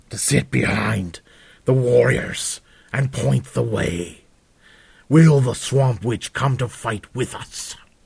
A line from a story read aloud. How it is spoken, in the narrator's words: spat an Ogrim warrior with a booming voice